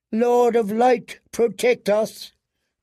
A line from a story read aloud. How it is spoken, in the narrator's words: cried Queen Selyse